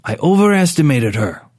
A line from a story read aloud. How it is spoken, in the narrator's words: Rourke said curtly